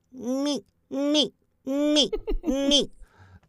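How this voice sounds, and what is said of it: Singing warm-up in falsetto. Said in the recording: “my head voice, like my falsetto”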